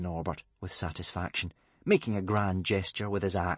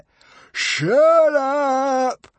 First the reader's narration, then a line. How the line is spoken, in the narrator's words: roared Norbert, a fanatical gleam in his mad eye